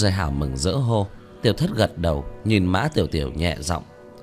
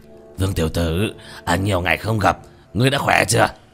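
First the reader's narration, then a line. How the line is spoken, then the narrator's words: Hearty laughing greeting. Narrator (Vietnamese): Hoa Thanh cười lớn một tiếng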